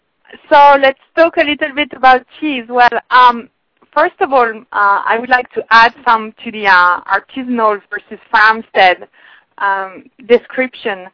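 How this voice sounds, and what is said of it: French accent in English. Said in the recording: “my really bad French accent”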